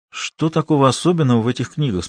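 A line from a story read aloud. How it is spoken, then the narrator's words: Tired question. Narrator (Russian): спросил Давид, устало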